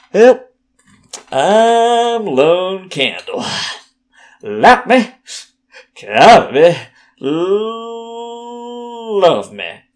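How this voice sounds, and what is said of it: Put-on southern accent. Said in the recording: “talk like this ... accent. I don't even know what this accent is. Some sort of southern accent”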